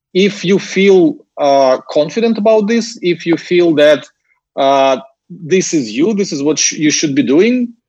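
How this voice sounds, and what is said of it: Ukrainian-accented English. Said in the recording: “a random young Ukrainian dude speaking English and it's not even like perfect English ... my accent”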